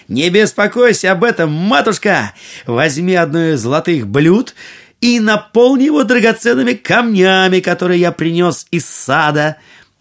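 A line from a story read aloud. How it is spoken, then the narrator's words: Cheerful shout. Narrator (Russian): Аладдин весело крикнул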